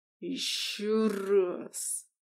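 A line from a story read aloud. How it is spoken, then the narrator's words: Hissing. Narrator (Russian): прошипел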